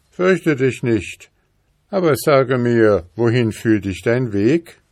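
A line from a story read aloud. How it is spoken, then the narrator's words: Wolf calling. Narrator (German): der Wolf rief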